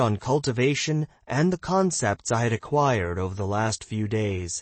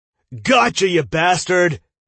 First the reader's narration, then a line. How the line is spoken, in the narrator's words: Dale yelled